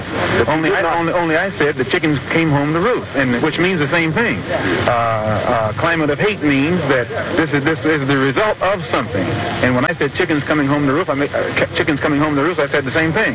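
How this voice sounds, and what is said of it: Fast, hearty speech. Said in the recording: “That's why I'm talking so fast and so hearty.”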